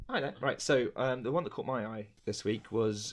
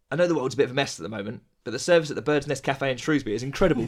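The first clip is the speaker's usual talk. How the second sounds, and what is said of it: Good impression of Greg Davis. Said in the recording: “comedian Greg Davis tweeting ... I was going to do an impression there ... It was a really, really good impression.”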